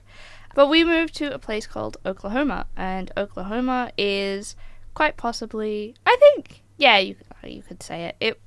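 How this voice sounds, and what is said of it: Slight American accent. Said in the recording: “moved us all the way over to the United States. So that's where I get my little accent from”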